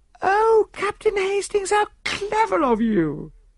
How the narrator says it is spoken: cried Mrs

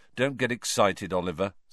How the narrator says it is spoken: said Harry gloomily

